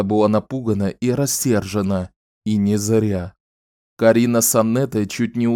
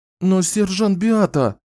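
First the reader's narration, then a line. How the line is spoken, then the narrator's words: Whimpering. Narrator (Russian): хныкала Аннетта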